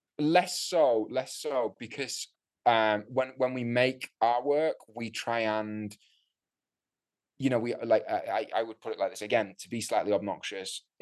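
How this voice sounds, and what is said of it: Northern English accent. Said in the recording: “I do have a Northern English accent”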